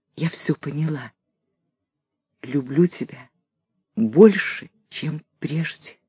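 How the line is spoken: Soft whisper. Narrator (Russian): И тихо шепнула

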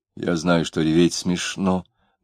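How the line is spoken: Muttering. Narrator (Russian): бормотал Маракуев

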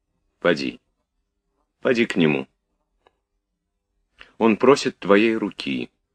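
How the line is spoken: Seemingly cold. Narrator (Russian): сказала графиня холодно, как показалось Наташе

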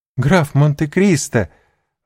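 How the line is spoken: Joyful exclamation. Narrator (Russian): воскликнула она с искренней радостью

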